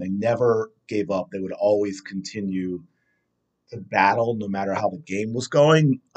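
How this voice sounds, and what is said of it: Hoarse, strained voice. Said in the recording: “I'm losing my voice already. See, I don't have that yelling at practice to keep my vocal cords strong.”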